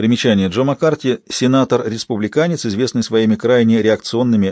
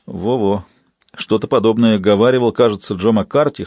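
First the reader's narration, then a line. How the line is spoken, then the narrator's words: Snorting. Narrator (Russian): хмыкнул Уилли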